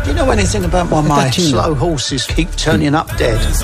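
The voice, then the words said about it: English accent. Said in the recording (Spanish): “ahí hay un acento inglés”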